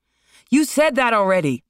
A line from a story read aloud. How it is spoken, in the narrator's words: Marlon shouted